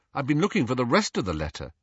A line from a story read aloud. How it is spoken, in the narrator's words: Harry said